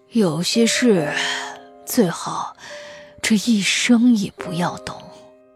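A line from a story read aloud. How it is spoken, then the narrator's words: Old, wistful murmur. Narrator (Chinese): 苍老的脸上挂着笑意，喃喃说道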